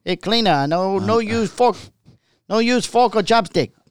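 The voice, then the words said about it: Exaggerated put-on Chinese accent. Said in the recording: “I like that you always overly abuse your... Chinese? ... especially your Chinese ... I know my Chinese accent.”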